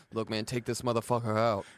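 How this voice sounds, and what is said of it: Impression of Coach T. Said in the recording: “my Coach T impression”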